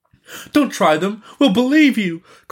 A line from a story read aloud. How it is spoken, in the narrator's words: cried somebody, as if fearful of losing them